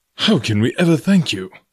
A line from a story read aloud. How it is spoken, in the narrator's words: he exclaimed